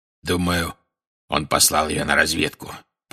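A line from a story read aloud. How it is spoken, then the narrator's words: Growl. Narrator (Russian): прорычал Грюм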